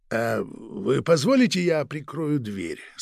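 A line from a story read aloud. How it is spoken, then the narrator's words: Quiet question. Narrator (Russian): спросил тихо начальник сыскной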